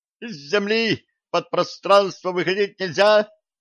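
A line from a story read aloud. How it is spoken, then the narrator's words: Yelled. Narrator (Russian): завопил директор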